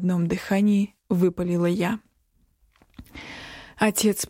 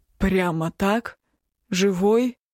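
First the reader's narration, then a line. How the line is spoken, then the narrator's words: Suddenly hoarse voice. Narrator (Russian): Внезапно охрипшим голосом спросил отец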